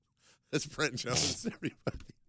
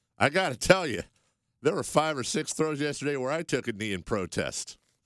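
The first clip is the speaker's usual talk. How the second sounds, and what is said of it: Put-on country accent. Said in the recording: “I don't know why I'm giving him a country accent, but it just seems right.”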